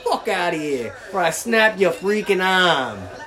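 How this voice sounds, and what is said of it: Put-on Boston accent, not convincing. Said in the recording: “I'll say it in the Boston accent... Is that a Boston accent right there?... I would not recommend you calling yourself a perfect accent right there”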